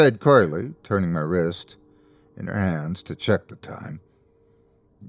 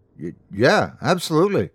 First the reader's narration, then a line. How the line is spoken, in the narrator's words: I stammered